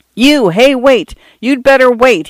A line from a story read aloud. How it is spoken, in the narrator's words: yelled